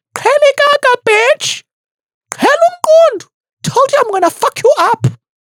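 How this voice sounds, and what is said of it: Thick Xhosa accent, angry shouting. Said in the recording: “natural Xhosa thick accent ... when you're speaking English while you are angry and fighting ... original Xhosa accent”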